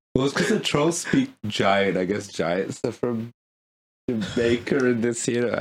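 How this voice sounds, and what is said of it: Usual voice. Nothing is said of it.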